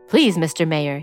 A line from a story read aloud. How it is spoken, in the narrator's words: said